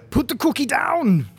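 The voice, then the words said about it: Arnold Schwarzenegger impression. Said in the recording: “That could be Arnie from, like, Twins or something.”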